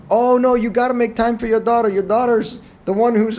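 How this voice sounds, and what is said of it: Bad put-on Asian accent. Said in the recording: “I shouldn't do that in an accent ... That sounded very Italian ... That was my attempt at an Asian accent ... Butchered”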